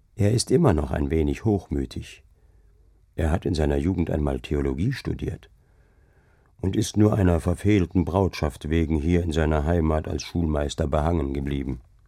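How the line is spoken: Murmured into the ear. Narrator (German): raunte der Deichgraf mir ins Ohr

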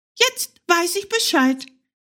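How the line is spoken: Little hare calling out. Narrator (German): rief der kleine Hase

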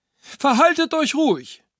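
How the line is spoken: Called out. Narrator (German): rief Frau Dr

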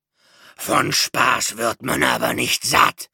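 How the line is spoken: Roaring. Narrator (German): brüllte Tata

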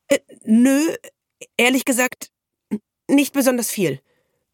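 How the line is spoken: Stammering. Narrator (German): stammelte sie

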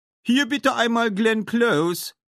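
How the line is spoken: Called out. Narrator (German): rief Tofu

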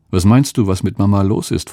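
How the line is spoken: Plain question. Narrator (German): fragte Eli

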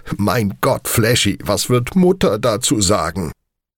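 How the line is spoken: Loud laughing call. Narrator (German): Speed lachte laut und rief mir zu

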